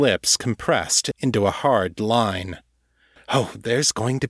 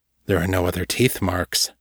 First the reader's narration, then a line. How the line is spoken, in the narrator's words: Michael said quietly